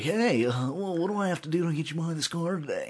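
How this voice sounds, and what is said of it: Slick salesman radio voice. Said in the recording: “Stop using your radio voice to talk ... to me.”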